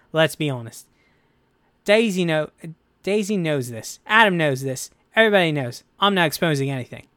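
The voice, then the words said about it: Poor imitation of another person's accent. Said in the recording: “That's a terrible accent for John Boyega. John, I know I'm butchering”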